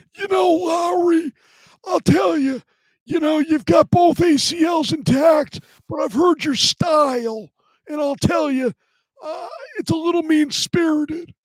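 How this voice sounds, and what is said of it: Impression of John Boynton. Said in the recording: “John Boynton ... that impression”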